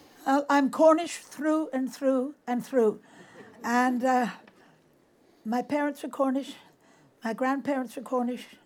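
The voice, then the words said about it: Cornish accent. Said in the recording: “your Cornishness has always been a key part of your makeup, hasn't it? Your accent, for example”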